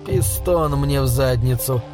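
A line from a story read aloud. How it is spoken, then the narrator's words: Grumbling mutter. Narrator (Russian): буркнул Пол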